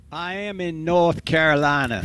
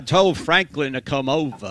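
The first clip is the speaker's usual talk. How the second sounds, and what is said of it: Billy Graham accent impression. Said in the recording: “the Billy Graham accent ... That's not bad.”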